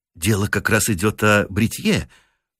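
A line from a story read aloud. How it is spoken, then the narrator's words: Timid. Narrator (Russian): робко уронил Бирд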